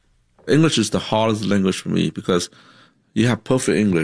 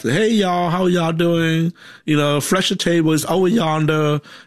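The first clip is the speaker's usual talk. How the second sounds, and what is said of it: Put-on Southern American accent. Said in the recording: “you have a little southern accent”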